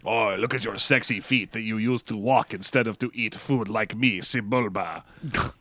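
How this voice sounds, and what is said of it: Exaggerated French cartoon accent. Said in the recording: “I'm just doing Pepe Le Pew... You're getting Frencher as it goes”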